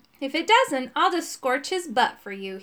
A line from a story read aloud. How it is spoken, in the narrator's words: he said